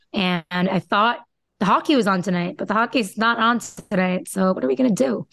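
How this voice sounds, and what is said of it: Strong Boston accent. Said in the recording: “There was your Boston accent right there in full effect ... It was like all in on Boston.”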